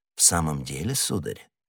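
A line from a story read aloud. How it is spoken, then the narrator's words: Even calmer question. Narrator (Russian): переспросил незнакомец еще более спокойным тоном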